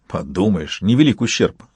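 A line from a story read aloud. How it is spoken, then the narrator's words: Eager snort. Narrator (Russian): фыркнул профессор с охотничьим азартом в глазах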